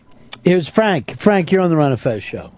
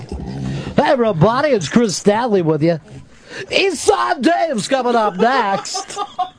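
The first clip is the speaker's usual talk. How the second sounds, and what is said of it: Fake trained radio announcer voice. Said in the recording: “a fake ... radio voice ... Trained by the Columbia School of Broadcasting.”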